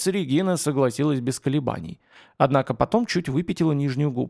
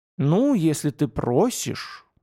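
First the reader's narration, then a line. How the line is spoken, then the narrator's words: Sigh. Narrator (Russian): вздохнула Регина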